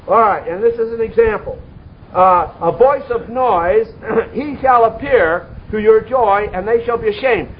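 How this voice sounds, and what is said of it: Loud yelling, nearly hoarse preaching voice. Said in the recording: “I'm about yelling myself hoarse”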